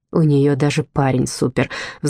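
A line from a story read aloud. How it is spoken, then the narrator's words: Sighing. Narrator (Russian): вздохнула Джессика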